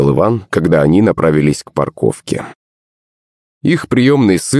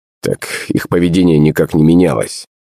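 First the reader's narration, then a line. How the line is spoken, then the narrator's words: Snorting. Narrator (Russian): хмыкнул Иван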